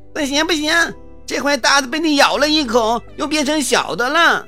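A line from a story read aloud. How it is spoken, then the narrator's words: Two voices shouting. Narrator (Chinese): 哥俩 又叫了起来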